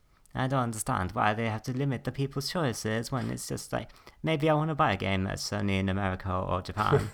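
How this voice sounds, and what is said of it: Speaks in a regional accent. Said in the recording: “What regional accent was that?”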